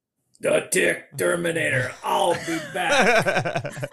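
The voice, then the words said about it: Imitates another person's voice. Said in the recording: “Do you do an Arnold Schwarzenegger impersonation by any chance?”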